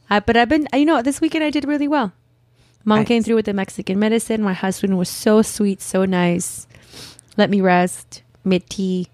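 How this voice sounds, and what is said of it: Hoarse, husky sick voice. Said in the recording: “You think I have a sexy voice today? ... my horse sexy voice ... now it's my turn to be sick”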